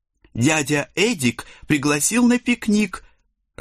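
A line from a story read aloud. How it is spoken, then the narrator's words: Joyful reply. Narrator (Russian): радостно откликнулась Хельга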